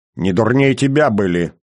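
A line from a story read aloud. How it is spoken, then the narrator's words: Snorting. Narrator (Russian): фыркнул Иван III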